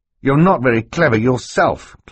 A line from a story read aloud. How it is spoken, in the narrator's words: Klaus said fiercely